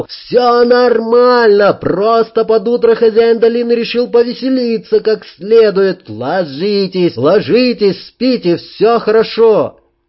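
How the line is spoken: Yelling over the din. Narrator (Russian): Я, перекрикивая гвалт, заорал

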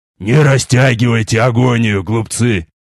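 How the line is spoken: Furious growl. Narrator (Russian): прорычал, свирепея от упорности их сопротивления

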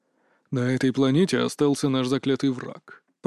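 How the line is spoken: Flat whisper, ancient undertone. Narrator (Russian): прошептал Торис, и даже в его безэмоциональном тоне промелькнула тень чего-то древнего

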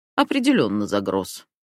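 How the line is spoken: Short man's snort. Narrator (Russian): хмыкнул коротышка

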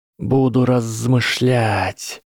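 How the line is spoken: Hissed. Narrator (Russian): прошипел Гарри

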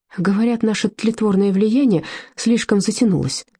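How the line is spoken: Forced out through tears. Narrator (Russian): сквозь слезы выдавила Фрида

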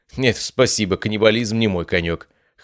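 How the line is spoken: Snorting chuckle. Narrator (Russian): хмыкнул

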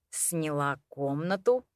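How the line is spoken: Quiet repeating. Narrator (Russian): Тихим голосом повторил мужчина

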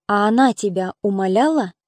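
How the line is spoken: Unusually calm question. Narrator (Russian): спросил его Геликаон необычно спокойным голосом

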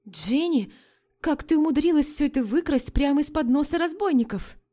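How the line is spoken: Impulsive exclamation. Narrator (Russian): воскликнула несдержанная Энн

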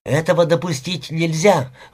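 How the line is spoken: Exclaimed. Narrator (Russian): воскликнула Элен

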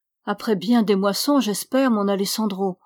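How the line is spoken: Plain. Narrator (French): dit-elle

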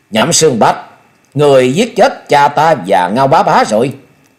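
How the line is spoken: Murderous loud bellow. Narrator (Vietnamese): Thôi Vân hai luồng sát quang bừng bừng lớn tiếng quát

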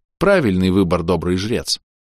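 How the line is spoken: Plain. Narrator (Russian): сказал

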